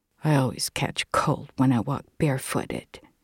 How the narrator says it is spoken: mumbled my brave companion

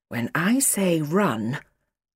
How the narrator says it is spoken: the doctor breathed

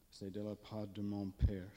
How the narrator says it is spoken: said

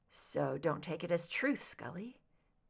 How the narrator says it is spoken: Mulder said softly

